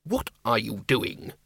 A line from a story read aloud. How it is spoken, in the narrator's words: hissed Ridcully